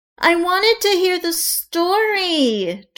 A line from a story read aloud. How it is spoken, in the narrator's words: Juliet whined